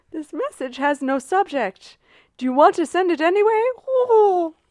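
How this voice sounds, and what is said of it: Character voice of a pigeon. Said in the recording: “do a pigeon voice ... That's pretty good.”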